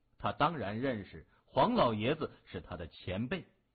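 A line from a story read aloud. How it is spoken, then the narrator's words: Cheerful laughing voice. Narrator (Chinese): 谢文东笑呵呵地说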